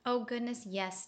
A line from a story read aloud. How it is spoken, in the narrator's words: stammered the pangolin